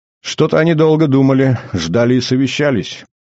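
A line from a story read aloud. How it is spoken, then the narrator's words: Smirking, pleased girl. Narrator (Russian): ухмыльнулась очень довольная малая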